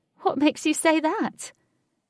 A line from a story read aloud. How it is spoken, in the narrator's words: Katie shouted in his ear